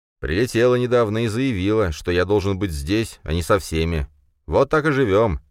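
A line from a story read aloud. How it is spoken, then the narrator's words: Sarcastic and bitter. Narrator (Russian): прозвучало язвительно и горько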